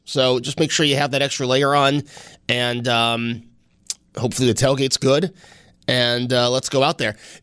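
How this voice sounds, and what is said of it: Sick-sounding voice. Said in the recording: “I'm a little under the weather, if you couldn't tell by my voice.”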